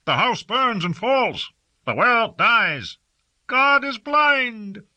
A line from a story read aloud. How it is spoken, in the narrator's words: people began to wail and call out in the streets and from the balconies